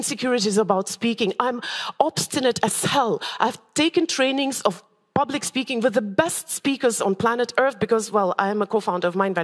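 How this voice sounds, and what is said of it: Odd accent. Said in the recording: “I have an odd accent, so odd that I have people walk out of my meditation saying they can't take me.”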